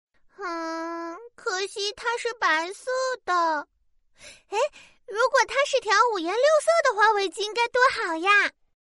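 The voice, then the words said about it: Quiet pouting mumble. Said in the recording (Chinese): “撅着嘴小声嘟囔”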